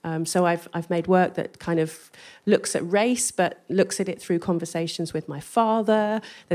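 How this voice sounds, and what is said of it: English accent. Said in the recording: “I go in there with my English accent”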